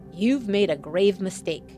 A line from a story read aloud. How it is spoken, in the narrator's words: Bachman said through clenched teeth